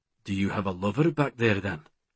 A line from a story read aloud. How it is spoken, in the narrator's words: His tone was nonchalant